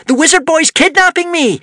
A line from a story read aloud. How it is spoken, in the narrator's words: shouted Wish